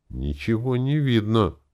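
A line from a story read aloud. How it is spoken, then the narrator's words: Pleading. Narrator (Russian): взмолился он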